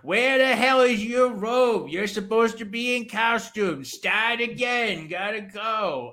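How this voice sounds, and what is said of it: Mumbly put-on local accent. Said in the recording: “Mushmouth members of Amity ... I love your imitations ... your Mushmouth Amity uh, accent”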